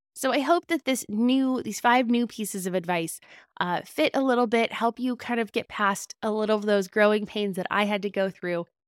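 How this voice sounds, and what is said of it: Raspy, slightly hoarse voice. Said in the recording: “My voice does seem a little raspy today. I might be coming down with a little bit of a cold.”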